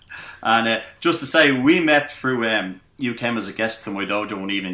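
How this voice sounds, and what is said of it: Thick Irish accent. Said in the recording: “my thick Irish accent”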